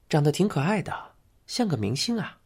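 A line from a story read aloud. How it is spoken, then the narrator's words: Quiet. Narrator (Chinese): 坐在一旁的内海勋探过头去，小声说道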